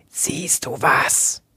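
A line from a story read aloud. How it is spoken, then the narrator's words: Brother hissing. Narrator (German): zischte ihr Bruder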